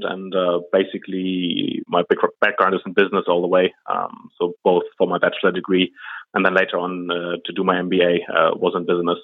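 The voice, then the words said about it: German accent. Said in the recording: “As you can tell by the accent, I'm German.”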